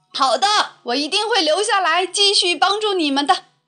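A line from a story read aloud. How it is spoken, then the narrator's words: Beaming, loud. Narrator (Chinese): 后羿满面笑容，大声说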